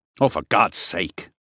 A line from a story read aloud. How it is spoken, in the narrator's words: Harper said angrily